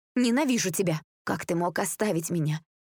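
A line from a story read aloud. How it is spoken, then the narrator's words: Hoarse question. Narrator (Russian): Хриплым голосом спрашивала Таня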